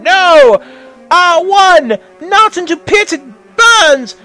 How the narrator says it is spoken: yelled Ganon as he fell into doom while burning

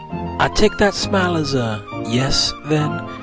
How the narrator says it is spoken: asked quietly with a playful smirk

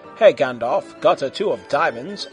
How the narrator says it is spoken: asked Elrond

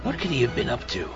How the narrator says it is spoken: Bruce murmured

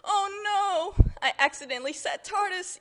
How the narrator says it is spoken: yelled the Doctor

